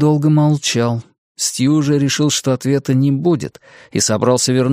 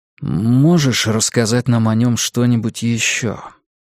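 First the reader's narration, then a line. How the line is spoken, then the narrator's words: Quiet question. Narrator (Russian): тихим голосом спросил Стью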